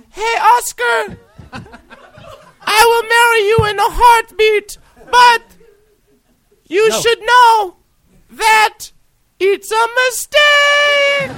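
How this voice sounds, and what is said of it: Put-on Mexican accent. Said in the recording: “Was that the Mexican accent that you were doing?”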